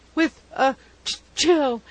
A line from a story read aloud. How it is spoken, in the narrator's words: he gasped